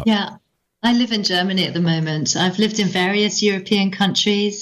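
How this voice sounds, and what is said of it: English accent. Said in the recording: “You clearly don't have a German accent ... obviously I'm English”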